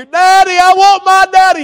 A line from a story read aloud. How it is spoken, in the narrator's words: he was still screaming in my ear